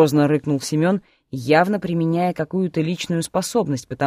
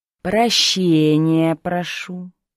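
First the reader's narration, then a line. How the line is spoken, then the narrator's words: Hesitant, through gritted teeth. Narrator (Russian): Не сразу и сквозь зубы проговорил рвых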